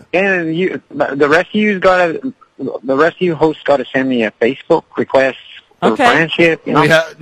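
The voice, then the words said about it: Irish accent. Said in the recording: “I like his Irish accent.”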